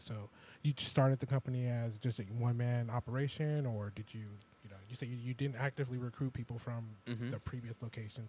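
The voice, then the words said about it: Smooth radio DJ-like voice. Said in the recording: “I swear you got like a radio DJ voice, bro ... I swear I heard this dude on the radio before.”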